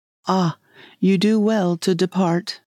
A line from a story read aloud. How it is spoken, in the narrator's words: Yoshichika laughingly called to me